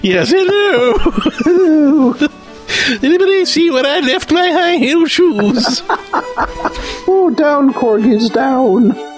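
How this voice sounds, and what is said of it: Imitates a queen's voice. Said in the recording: “my other queen impersonation”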